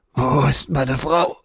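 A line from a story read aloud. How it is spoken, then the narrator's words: Frantic croak. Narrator (German): krächzte Ahmed noch immer wild um sich blickend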